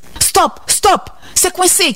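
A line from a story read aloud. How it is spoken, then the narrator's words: Shouted. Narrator (French): criai-je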